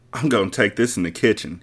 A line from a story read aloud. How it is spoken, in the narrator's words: she giggled